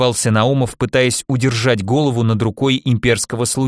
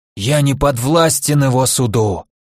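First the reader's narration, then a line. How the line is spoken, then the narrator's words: Hoarse wheeze. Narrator (Russian): захрипел Наумов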